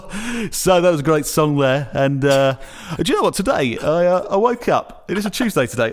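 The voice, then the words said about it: Exaggerated radio DJ voice. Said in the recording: “the radio voice first came in... The radio voice.”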